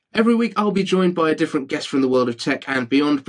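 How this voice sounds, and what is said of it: British accent. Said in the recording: “with a British accent”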